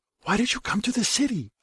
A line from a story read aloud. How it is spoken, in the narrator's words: a keening, whispering voice asks